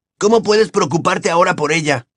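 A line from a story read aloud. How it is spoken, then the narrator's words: Incredulous exclamation. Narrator (Spanish): exclamó Ron sin dar crédito a sus oídos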